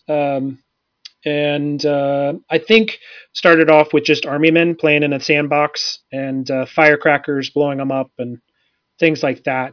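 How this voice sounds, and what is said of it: Rural Indiana American accent. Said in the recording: “I grew up in rural Indiana. You'll hear that in my voice.”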